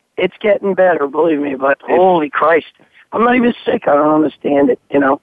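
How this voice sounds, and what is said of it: Hoarse, strained voice. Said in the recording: “still laryngitis-stricken ... don't strain your voice, man ... that voice, man, that's been beating the crap out of you for a few fucking weeks”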